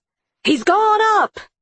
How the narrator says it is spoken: Irwin shouted

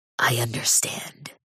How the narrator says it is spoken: whisper

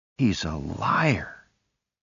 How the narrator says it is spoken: Denny whispered

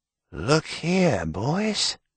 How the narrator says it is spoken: he whispered

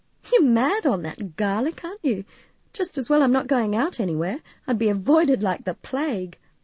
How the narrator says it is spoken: laughing

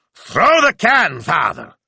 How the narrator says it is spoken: Signor Speranza roared

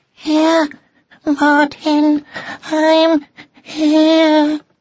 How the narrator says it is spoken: cried Drusilla faintly

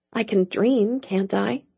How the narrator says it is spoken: She muttered

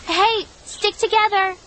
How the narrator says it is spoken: I shouted

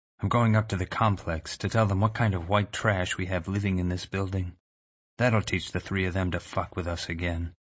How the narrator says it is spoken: said, almost tenderly

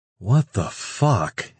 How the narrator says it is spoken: Antonio breathed out

